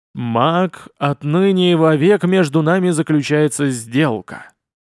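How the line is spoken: Solemn rumbling demon voice. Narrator (Russian): торжественно пророкотал голос демона

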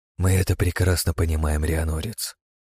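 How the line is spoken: Dry remark. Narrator (Russian): сухо заметила Ивара

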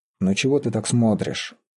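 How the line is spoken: Quiet, bitter. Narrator (Russian): негромко и горько сказал Мечислав

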